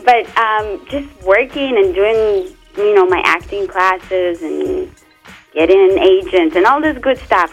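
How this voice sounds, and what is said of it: Noticeable foreign accent. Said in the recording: “I'm still working on my accent. As you can see, it's not working out for me that well.”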